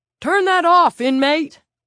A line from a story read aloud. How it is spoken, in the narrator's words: Tig Murphy bellowed